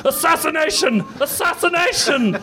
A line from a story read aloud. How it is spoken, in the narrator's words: yelled the manager